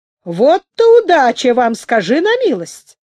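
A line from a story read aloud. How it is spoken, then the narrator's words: Exclaimed. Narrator (Russian): воскликнул Ковалев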